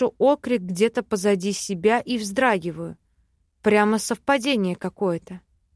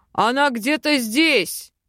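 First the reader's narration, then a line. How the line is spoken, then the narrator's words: Loud deep bass. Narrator (Russian): Басит громко неизвестный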